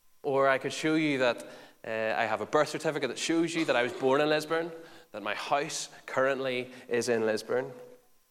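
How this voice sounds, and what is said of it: Lisburn local accent. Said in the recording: “I'm from Lisburn, the great city of life? You can probably tell from my perfect accent that there's no accent here at the front, that it's perfect English”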